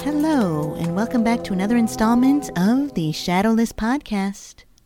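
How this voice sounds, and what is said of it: Calm, soothing radio-announcer voice. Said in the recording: “Very calming ... my nice little NPR voice ... like those sleep apps”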